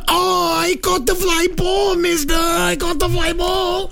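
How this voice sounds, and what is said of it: Put-on Mexican accent. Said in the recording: “That was an illegal Mexican accent.”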